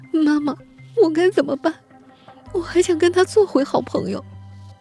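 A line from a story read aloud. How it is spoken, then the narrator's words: Tearful question. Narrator (Chinese): 尹琛经常哭着问李丹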